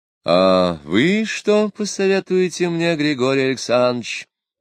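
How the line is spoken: Soft, tender voice. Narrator (Russian): мягким, ласковым голосом обратилась Екатерина Алексеевна к Потемкину

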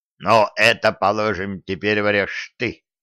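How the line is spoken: Snorting. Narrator (Russian): хмыкнул жучок

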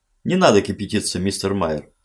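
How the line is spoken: Plain. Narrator (Russian): сказал Алекс

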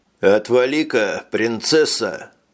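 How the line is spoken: Grumbling. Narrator (Russian): пробурчал мутный субъект

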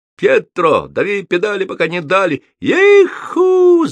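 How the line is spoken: Cowboy-style yell. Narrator (Russian): заорал на манер американских ковбоев Петровский

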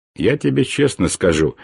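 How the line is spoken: Grumbling. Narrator (Russian): проворчал я

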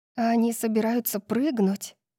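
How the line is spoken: Breathless gasp. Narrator (Russian): выдохнула Дарси

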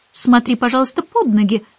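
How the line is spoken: Stern remark. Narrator (Russian): строго заметила Мэри Поппинс

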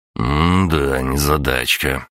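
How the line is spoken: Grumbled. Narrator (Russian): проворчал я

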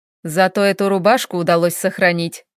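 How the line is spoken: Chuckling. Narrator (Russian): хохотнул Хел

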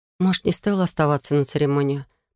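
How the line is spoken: Muttering. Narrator (Russian): пробормотала я

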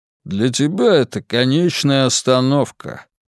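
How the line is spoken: Grumbling. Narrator (Russian): проворчал Мило

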